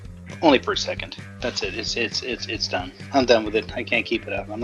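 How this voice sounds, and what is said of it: Usual voice. Nothing is said of it.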